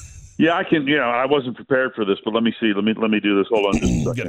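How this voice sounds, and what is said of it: Usual voice. Nothing is said of it.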